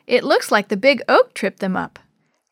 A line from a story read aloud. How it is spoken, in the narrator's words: Chris laughed